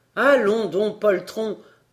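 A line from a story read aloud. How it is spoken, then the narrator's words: Loud voice. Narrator (French): répondit-il d'une voix forte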